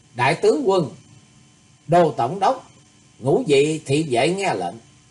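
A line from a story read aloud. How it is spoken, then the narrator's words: Cold snort, loud call. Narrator (Vietnamese): Thì Khuê Khuê nàng chỉ hừ một tiếng lạnh lùng rồi lớn tiếng gọi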